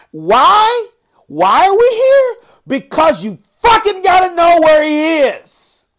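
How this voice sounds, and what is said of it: Yelling, strained voice. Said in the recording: “I'm yelling and I'm screaming and my blood pressure is going up and my voice is starting to hurt”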